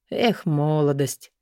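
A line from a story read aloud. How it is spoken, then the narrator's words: Fatherly reproachful sigh. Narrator (Russian): с отеческой укоризной вздохнул ректор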